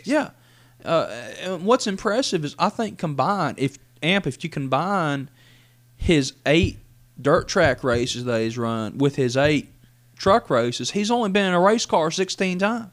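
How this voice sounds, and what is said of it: Country accent. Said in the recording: “I got a country accent”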